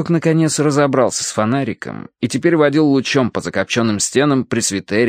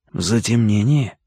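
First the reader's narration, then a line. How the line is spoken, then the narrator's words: Whisper. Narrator (Russian): шепнул я Карадерсу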